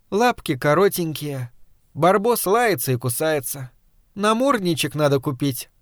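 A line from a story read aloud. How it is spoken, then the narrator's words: Tender voice. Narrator (Russian): Танечка отвечала нежным голосом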